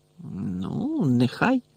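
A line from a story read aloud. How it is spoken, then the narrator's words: Grumbled. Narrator (Ukrainian): буркнула Герміона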